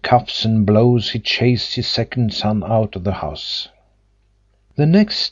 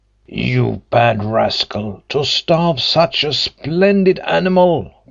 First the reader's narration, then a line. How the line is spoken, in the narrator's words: cried the tailor